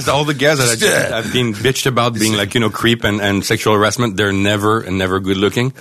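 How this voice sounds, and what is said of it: French accent. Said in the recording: “You have a charming French accent.”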